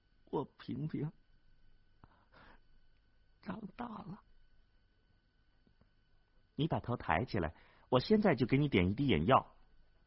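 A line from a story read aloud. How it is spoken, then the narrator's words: Old man's choked voice. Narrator (Chinese): 老人只是哽咽的说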